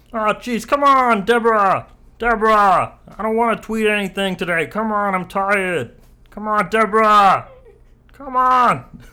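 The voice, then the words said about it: Nasal Brooklyn-accented Ray Romano impression. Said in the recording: “Like nasally ... That's all I have for Ray Romano ... It's just Kermit with a ... Brooklyn accent.”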